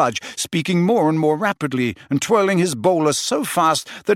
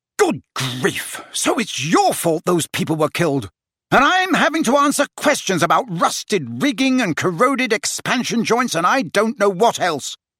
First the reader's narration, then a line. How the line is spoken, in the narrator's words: said the Prime Minister furiously